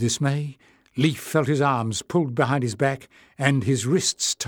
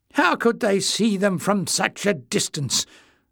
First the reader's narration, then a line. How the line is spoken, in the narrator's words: Clef sneered